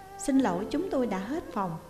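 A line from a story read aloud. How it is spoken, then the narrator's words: Smiling reply. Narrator (Vietnamese): Cô cao hơn mỉm cười đáp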